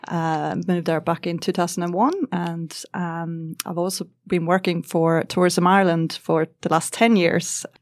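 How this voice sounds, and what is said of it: Slight Scandinavian-tinged Irish accent. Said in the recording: “not quite a full-on Irish accent... a little bit of Scandinavian in my accent”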